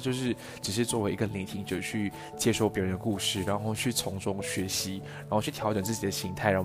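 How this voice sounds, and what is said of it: Heavy Taiwanese Mandarin accent. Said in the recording (Chinese): “我在台湾生活过的很重的台湾腔”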